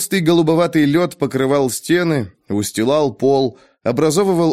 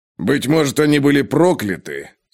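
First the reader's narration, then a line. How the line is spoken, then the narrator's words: Gloomy mutter. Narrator (Russian): с непривычной для него угрюмостью пробормотал Ковальский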